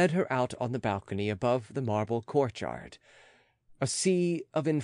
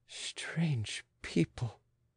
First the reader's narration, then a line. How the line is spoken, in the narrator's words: muttered the Austrian